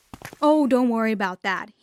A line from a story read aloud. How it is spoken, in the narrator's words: said